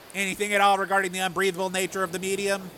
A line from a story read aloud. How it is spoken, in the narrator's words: said indignantly